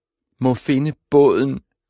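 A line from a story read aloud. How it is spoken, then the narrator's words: Whimpering. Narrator (Danish): klynkede hun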